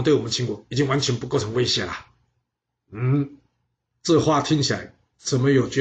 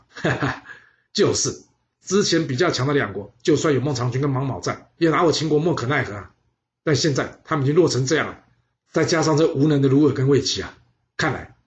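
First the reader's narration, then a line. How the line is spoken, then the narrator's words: Loud laughter. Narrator (Chinese): 秦昭襄王大笑说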